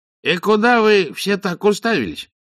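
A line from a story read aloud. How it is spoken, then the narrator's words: Cheerful exclamation. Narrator (Russian): бодро воскликнул Сдумс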